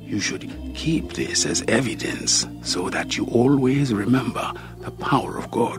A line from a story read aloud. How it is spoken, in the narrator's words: he whispered in my ear